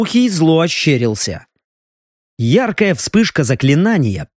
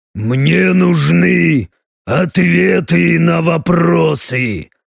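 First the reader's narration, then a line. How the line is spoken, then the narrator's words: Growl. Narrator (Russian): Рыкнул Леха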